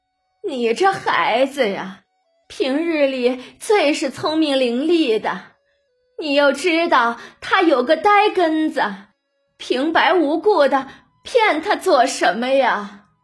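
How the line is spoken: Choked, sobbing. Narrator (Chinese): 哽咽着

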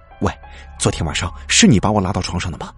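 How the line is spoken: Hurried question. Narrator (Chinese): 韩伟急忙问道

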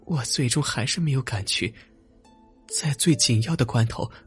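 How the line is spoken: Sighing. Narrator (Chinese): 随后他叹了一口气，接着说

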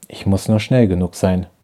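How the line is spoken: Murmuring. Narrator (German): murmelte sie

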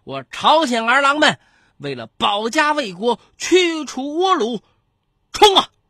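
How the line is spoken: Brief forceful battle cry. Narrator (Chinese): 他简短有力的冲锋号令

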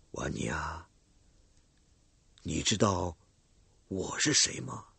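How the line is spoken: Soft questioning voice. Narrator (Chinese): 我向他俯下身去，轻声的问他

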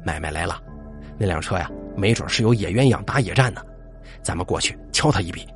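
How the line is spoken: Low voice. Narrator (Chinese): 肖勇……低声说

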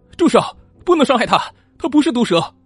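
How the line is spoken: Loud shout. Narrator (Chinese): 大喊一声

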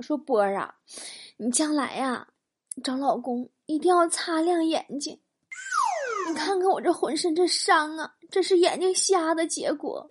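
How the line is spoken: Crying. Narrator (Chinese): 哭着跟我说

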